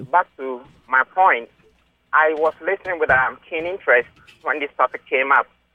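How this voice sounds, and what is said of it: African accent. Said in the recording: “as you can tell from my accent. I'm an African”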